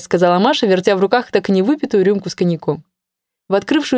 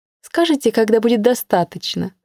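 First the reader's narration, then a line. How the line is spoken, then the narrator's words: Gentle question. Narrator (Russian): спросила ласково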